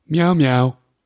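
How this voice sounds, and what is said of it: Imitates a cat meowing. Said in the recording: “That's my impression of Dexter.”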